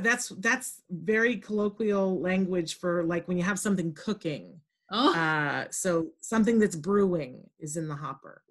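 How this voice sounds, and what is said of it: Australian accent. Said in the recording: “It's the Aussie accent. ... the Aussie-ness”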